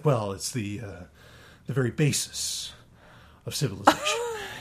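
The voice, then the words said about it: William Shatner impression. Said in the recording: “you can picture Shatner saying it ... that's a great impression.”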